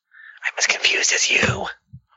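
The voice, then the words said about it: Whispering. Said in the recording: “Why am I still whispering? ... I'm gonna stop whispering now”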